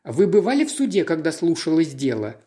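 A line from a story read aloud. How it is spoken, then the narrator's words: Plain. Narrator (Russian): спросил Пуаро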